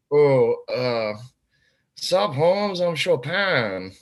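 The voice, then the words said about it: Imitates another person's voice. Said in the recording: “How do you do an offensive like Chopin impression?”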